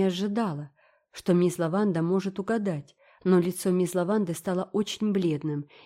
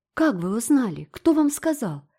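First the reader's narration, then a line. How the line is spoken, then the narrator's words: Disappointed exclamation. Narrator (Russian): воскликнула Энн разочарованно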